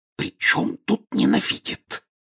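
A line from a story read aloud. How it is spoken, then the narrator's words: Angry whispered objection. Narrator (Russian): сердитым шепотом возразила миссис Уизли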